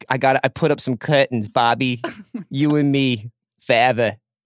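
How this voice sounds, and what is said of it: Inconsistent put-on accent. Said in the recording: “The accent is all over the place.”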